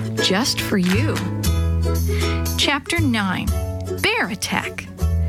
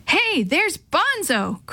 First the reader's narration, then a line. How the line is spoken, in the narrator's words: Chris yelled, jumping up